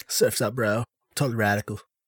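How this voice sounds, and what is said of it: Surfer-dude voice like Rocket Power characters. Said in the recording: “You guys sound like some Rocket Power characters.”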